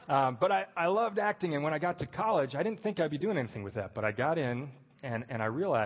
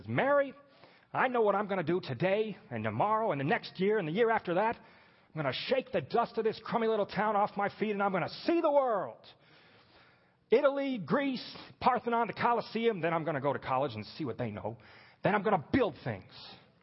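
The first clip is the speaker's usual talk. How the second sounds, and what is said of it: Jimmy Stewart as George Bailey. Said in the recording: “Any excuse for a George Bailey, Jimmy Stewart impersonation.”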